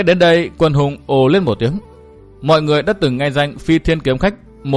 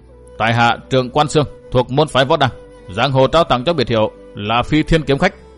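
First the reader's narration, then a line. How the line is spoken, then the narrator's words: Harsh, gritted voice. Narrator (Vietnamese): Người vận áo tím liềm gắt gằn giọng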